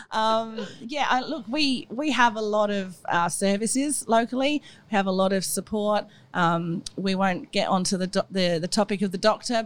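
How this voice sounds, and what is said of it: English accent. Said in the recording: “I'm English, if you can't tell from my accent”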